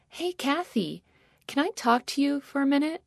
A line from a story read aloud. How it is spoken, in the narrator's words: a voice from behind me timidly asked